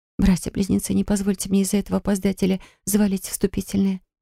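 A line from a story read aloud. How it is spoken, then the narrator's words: Tense whisper. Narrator (Russian): прошептала я, закусывая губу до крови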